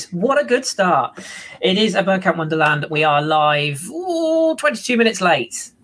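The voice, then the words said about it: Strained voice, losing it. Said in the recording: “Losing my voice.”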